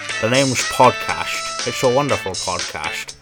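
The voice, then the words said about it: Imitates another person's voice. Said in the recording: “that terrible Sean Connery impression”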